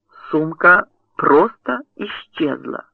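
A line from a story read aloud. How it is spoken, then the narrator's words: Plain. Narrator (Russian): сказал Найт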